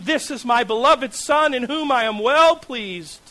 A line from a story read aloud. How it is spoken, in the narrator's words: a voice thunders from heaven